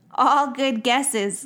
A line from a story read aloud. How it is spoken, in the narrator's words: laughed Claire